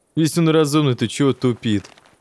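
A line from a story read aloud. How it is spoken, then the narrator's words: Laughing. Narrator (Russian): Засмеялся второй из незнакомцев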